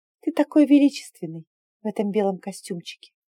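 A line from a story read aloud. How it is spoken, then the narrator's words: Soft opening. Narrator (Russian): мягко начала я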